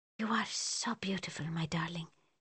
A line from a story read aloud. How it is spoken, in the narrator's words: he whispers